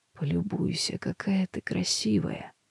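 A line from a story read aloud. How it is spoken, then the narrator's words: Hoarse. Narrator (Russian): хрипло говорит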